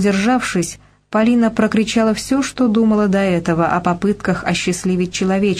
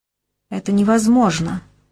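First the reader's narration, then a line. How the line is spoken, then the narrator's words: Weary voice. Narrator (Russian): устало проговорила Полина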